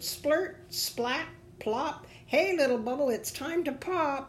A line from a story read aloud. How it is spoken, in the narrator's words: The blackbird ... ready to join in the fun, and he called out